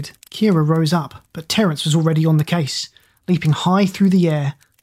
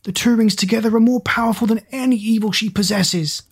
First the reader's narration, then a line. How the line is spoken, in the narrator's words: Zack bellowed